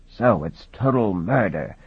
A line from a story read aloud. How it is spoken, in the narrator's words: Peregrine sighed